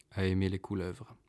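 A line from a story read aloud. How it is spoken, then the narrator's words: Hesitant murmur. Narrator (French): finit-il par murmurer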